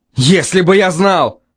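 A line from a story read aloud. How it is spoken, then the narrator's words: Father barking. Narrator (Russian): рявкнул отец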